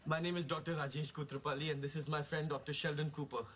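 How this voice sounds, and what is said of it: Indian-accented English. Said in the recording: “That's a great accent. Where are you from? ... India.”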